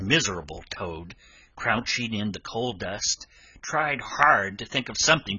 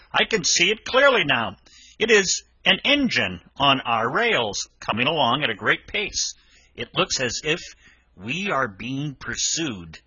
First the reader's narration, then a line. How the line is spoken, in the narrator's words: Presently he called out